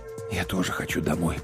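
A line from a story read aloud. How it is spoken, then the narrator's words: Whisper. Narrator (Russian): прошептал я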